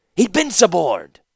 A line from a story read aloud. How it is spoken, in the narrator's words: Urza shouted